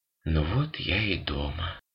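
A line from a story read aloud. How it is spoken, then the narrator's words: Quiet. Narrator (Russian): тихо сказала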